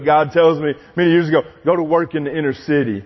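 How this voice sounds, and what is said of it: Speaks with a twang. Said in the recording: “hear the twang in my voice?”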